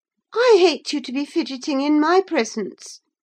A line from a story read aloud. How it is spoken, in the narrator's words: exclaimed the young lady imperiously